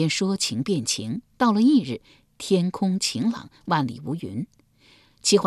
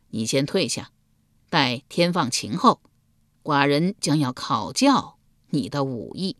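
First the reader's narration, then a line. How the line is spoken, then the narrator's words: Laughing. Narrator (Chinese): 桓公笑道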